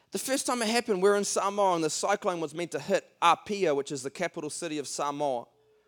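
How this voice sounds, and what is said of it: Speaks with a noticeable accent. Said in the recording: “I hope you can understand my accent, guys.”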